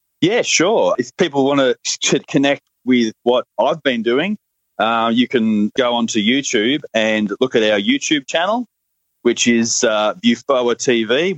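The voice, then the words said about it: Australian accent. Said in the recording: “If my Australian accent doesn't make that too hard to understand.”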